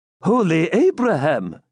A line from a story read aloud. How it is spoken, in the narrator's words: he exclaimed